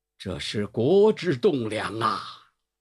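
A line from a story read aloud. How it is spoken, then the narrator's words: Choked tearful voice. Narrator (Chinese): 两行浊泪啊，喉头颤动，声音哽咽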